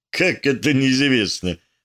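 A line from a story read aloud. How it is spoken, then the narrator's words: Laughing. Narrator (Russian): рассмеялся Рычагов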